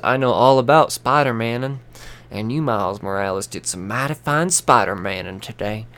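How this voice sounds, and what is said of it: Put-on hick accent. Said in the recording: “I don't know why I'm doing this fucking hick accent right now, but it just feels right.”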